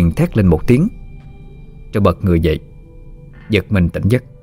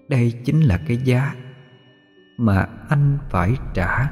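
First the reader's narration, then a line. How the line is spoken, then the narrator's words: Very gentle, smiling. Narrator (Vietnamese): Khuôn miệng đầy máu của cô nở một nụ cười vô cùng dịu dàng, nói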